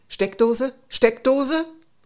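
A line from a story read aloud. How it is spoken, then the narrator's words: Called out. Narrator (German): rief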